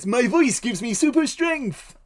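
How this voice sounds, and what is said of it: Silly cartoon character voice. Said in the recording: “Tristan talks like this in Yu-Gi-Oh! Abridged ... he has a silly voice.”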